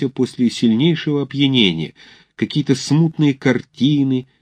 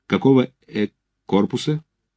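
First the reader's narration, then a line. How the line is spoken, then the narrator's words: Slightly stuttering question. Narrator (Russian): Чуть-чуть заикаясь, спрашивает он Александрова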